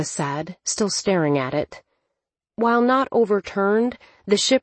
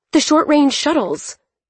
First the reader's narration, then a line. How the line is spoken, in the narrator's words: Thea shouted over them